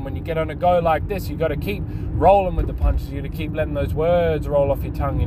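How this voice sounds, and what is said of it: Talking very fast. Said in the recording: “I'm talking really fast right now”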